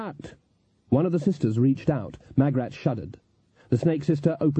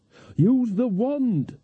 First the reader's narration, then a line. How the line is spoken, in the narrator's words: shouted Nanny